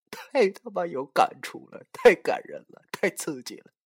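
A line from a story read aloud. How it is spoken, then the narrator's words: Crying. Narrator (Chinese): 他竟然哭了，说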